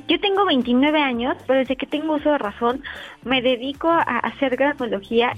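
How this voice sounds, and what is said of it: Girlish, childlike voice. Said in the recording (Spanish): “tienes voz de niña”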